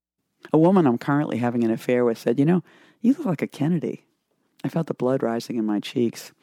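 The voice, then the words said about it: Boston accent. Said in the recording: “Speaking of Boston accent, here's another one.”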